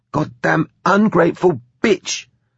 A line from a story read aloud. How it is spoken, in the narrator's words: Susie spat between shudders